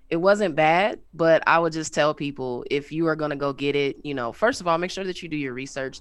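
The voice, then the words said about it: Unusually deep, sick-sounding voice. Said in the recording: “my voice is not usually this deep, but I've been sick”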